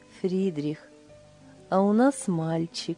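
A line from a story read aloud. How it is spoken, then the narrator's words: Blissful smiling speech. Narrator (Russian): Блаженно улыбаясь, Лиля сказала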